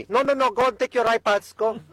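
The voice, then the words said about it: Put-on Latina accent. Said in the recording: “I'm imbuing her with a Latina accent”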